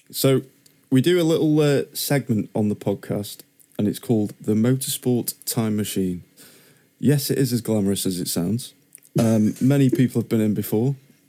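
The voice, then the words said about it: Deadpan delivery. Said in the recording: “Is that like a deadpan version of way of doing this”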